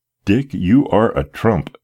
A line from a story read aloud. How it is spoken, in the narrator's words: exclaimed the gratified father